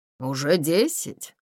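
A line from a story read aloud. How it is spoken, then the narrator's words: Mutter, craftsman. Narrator (Russian): пробормотал мастер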